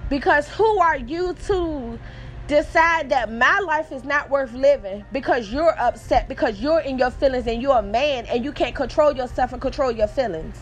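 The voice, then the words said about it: Emotional, upset voice. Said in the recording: “I'm getting emotional”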